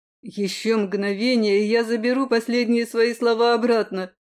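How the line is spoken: Growled. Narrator (Russian): рыкнул Айрилет

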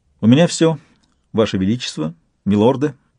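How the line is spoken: Plain. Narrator (Russian): сказала Канила

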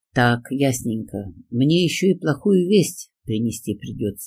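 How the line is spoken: Sighing. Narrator (Russian): вздохнула я

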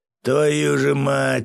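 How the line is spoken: Groan. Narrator (Russian): простонал Свят

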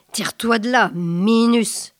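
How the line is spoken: Thundering. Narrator (French): tonna

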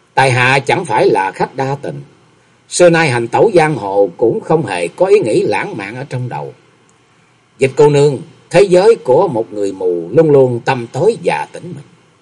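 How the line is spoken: Slow, smiling. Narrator (Vietnamese): Nhậm Xương Bạch lại mỉm cười chậm rãi rồi nói

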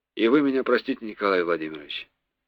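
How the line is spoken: Smiling mumble. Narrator (Russian): тот улыбнулся, буркнул

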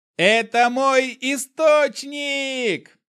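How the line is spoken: Joyful yelling. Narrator (Russian): заорал я от радости

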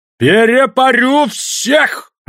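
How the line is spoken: Yelling angrily. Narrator (Russian): орал он на вятских мужиков

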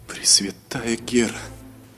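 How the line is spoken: Elf muttering. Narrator (Russian): пробормотал эльф

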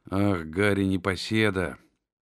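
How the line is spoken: Muttering to himself. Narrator (Russian): пробормотал он про себя

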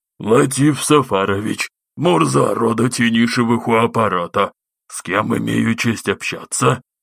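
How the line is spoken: Dry breathless creaking reply. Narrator (Russian): Неимоверно сухой запыхавшийся голос Мурзы проскрипел в ответ

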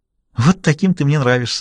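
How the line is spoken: Giggling. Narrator (Russian): хихикнула Аннабелл

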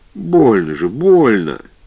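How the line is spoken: Cheerful then plaintive cry. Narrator (Russian): голос женщины прозвучал бодро, она снова жалобно вскрикнула

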